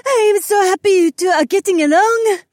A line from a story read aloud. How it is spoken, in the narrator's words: she squealed